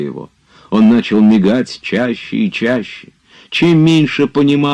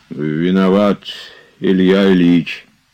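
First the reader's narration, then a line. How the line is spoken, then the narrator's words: Remorseful wheeze. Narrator (Russian): начал он сипеть с раскаянием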